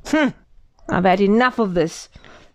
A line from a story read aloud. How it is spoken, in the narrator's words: grumbled Boris